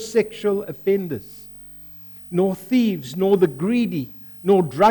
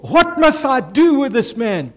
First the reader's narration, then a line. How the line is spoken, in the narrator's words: they shout